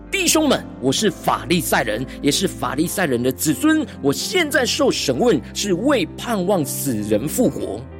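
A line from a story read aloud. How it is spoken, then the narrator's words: Loud public address. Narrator (Chinese): 保罗 就在公会中大声说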